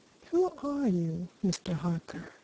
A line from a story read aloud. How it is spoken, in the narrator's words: asked Bryce quietly